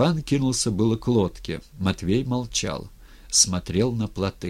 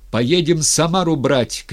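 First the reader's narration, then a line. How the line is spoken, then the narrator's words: Shout. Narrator (Russian): крикнул Степан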